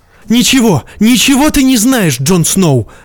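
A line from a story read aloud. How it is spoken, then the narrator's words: Shouting. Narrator (Russian): крикнула Игрид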